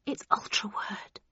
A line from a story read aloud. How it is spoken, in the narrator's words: I breathed